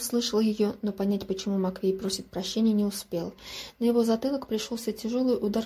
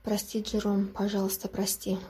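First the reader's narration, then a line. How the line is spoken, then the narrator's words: Quiet. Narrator (Russian): тихо проговорила Элейн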